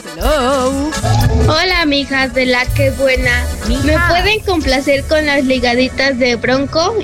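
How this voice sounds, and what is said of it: Little girl's voice. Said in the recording (Spanish): “Tiene voz de niñita.”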